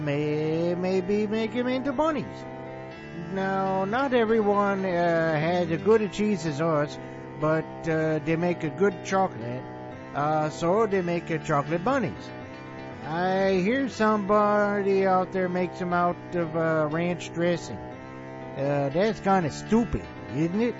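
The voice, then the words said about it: Bad put-on Wisconsin accent. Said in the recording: “worst Wisconsin accent ever ... even worse accents”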